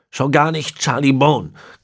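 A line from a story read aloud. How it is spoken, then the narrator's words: Growling. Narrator (German): knurrte Manfred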